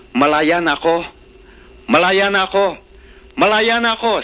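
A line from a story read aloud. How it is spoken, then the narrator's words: Shouting. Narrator (Tagalog): sigaw ni Barabas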